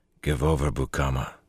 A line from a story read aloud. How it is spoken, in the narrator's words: Lan told him quietly